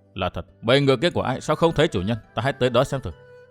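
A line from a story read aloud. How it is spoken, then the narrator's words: Muttering. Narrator (Vietnamese): Thạch Kiếm Cựu lẩm bẩm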